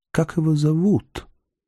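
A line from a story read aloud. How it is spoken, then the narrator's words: Whisper. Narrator (Russian): шепнула ночь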